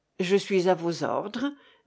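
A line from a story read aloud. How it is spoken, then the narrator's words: Shivering murmur. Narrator (French): murmura Daniel, les lèvres grelottantes, comme s'il avait très froid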